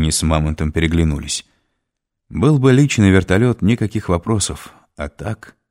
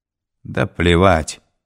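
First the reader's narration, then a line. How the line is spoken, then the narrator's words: Plain. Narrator (Russian): сказал Мамонт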